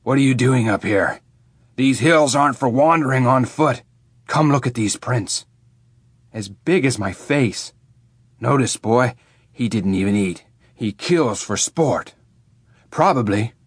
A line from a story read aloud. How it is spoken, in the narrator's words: he'd growl